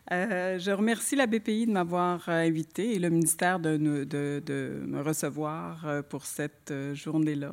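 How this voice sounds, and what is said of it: Québécois French accent. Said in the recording (French): “je ne m'excuserai pas pour mon accent ... les Suisses riaient des Québécois qui s'excusaient systématiquement de leur accent”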